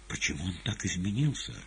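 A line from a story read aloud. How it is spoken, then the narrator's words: Quiet question over whistling wind. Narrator (Russian): спросила тихо Маргарита под свист ветра у Воланда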